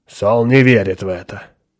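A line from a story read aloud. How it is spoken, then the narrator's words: Rude. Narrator (Russian): грубо сказал Пол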